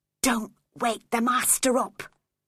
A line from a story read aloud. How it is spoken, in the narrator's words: I whispered